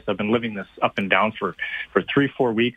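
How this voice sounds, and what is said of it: Frustrated, exasperated tone. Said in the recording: “I'm sure you can tell the frustration in my voice.”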